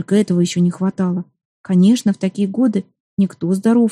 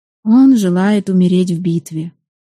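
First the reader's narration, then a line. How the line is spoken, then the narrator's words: Weary. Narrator (Russian): устало выговорила Соколина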